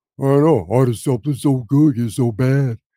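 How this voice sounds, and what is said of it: Poor impression of Rocky. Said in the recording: “That is the worst fucking impression ever.”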